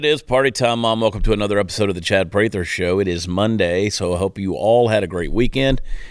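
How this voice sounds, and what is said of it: Stuffy, allergy-affected voice. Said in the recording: “Can you hear that in my voice? Can you hear it? Can you hear it? That's cedar. ... Allergies, baby.”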